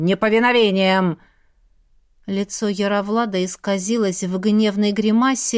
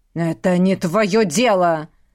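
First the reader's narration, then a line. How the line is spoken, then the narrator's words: Growled. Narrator (Russian): прорычал князь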